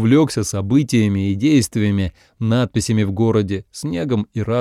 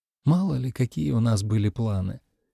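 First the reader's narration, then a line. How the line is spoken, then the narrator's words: Quiet. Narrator (Russian): тихо сказала она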